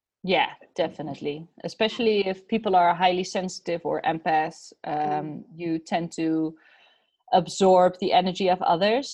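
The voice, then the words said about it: Speaks with a foreign accent. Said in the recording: “I love the way you say smash, by the way. That's so beautiful in your accent.”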